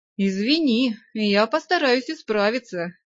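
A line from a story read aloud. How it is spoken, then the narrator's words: Snide vampire promise. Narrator (Russian): ехидно пообещал вампир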